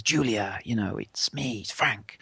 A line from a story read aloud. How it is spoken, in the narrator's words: when he speaks in that amazing voice